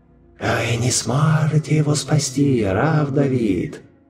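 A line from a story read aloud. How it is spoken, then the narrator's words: Strangled hiss. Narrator (Russian): Сдавленно шипел генерал-губернатор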